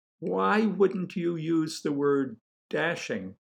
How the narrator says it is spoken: asked

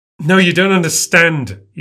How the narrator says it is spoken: he shouts

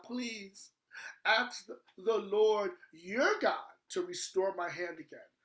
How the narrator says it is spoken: The king cried out to the man of God

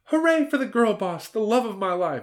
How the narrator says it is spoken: exclaimed Hillary

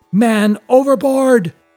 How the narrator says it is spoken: yelled the mate

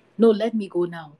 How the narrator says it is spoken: the brother said

